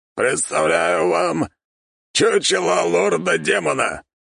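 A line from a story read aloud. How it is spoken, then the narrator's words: Barked. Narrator (Russian): рявкнул Бухич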